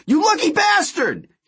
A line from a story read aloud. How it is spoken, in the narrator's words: He cried